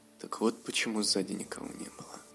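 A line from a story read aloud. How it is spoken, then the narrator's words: Dragon's whisper. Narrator (Russian): прошептал дракон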